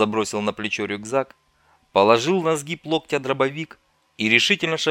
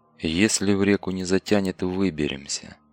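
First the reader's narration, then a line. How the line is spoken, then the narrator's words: Through gritted teeth. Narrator (Russian): Процедил, не оборачиваясь, товарищ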